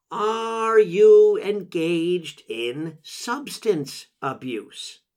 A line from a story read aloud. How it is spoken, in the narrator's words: when she speaks slowly, she also speaks loudly